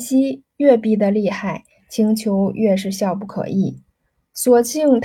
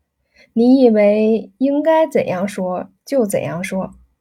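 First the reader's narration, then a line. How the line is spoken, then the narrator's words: Laughing. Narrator (Chinese): 燕西笑道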